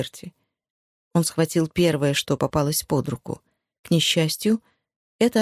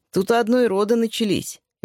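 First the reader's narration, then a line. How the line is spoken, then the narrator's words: Cheerful. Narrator (Russian): весело сказал он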